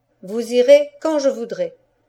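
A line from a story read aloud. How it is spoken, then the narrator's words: Commanding voice. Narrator (French): dis-je d'une voix de maître qui m'étonne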